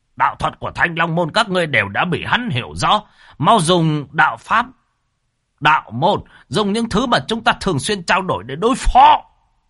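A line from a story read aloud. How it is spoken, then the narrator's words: Shouting. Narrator (Vietnamese): lão Khá vừa hét lên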